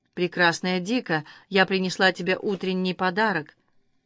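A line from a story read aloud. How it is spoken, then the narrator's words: Soft. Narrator (Russian): Сафо мягко сказала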